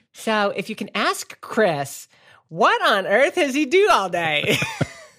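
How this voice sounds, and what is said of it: Put-on southern accent. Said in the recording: “You totally got my wife's voice. She's a southern whatever that was accent.”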